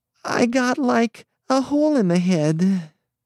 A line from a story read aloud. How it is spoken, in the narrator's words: she quavered